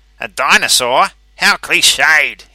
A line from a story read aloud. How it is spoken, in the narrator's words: sneered, his eyes full of resentment